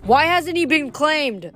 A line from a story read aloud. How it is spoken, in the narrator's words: Somebody yelled from the Ares cabin